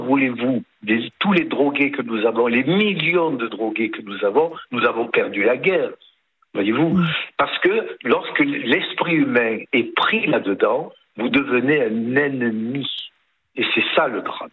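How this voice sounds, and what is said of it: Lilting Provençal French accent. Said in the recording (French): “ce petit accent chantant de Provence”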